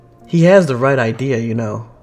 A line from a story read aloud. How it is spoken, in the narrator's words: Chase scoffs